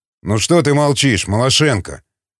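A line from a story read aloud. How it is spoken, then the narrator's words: Grumbling. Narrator (Russian): проворчал Басов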